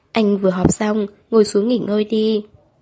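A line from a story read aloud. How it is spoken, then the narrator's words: Woman speaking languidly. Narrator (Vietnamese): cô uể oải nói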